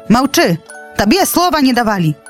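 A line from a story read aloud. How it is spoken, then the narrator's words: Shout. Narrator (Belarusian): крыкнуў арол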